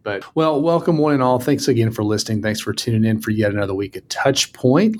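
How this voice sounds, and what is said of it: Southern Mississippi accent. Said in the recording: “I'm going to have to develop your accent, though ... my accent is maybe more Mississippi than it is Western”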